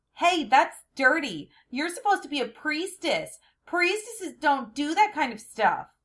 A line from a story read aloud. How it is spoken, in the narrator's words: this obnoxious little boy shouted